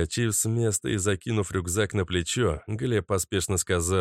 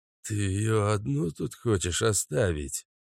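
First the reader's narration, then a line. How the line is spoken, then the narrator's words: Grumbling. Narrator (Russian): проворчал Каша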